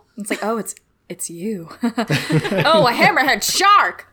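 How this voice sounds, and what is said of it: Old-timey put-on accent. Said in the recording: “your accent went a little old-timey on that”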